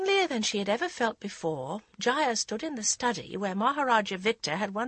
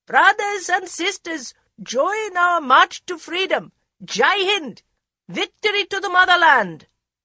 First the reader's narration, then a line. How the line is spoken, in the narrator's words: Cheering engulfed the park as the lawyer shouted